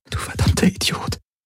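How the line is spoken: Whispered. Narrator (German): flüsterte sie

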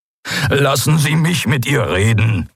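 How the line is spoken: Scholar pleading. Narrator (German): flehte der Gelehrte

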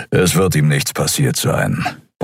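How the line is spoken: Grumbled. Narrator (German): brummte Keru

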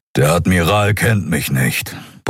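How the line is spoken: Grumbling. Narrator (German): brummte der Skria

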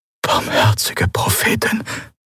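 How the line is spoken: Whisper. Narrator (German): flüsterte Quailor neben ihm

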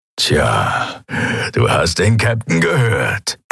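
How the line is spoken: Grumbling. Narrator (German): brummte er

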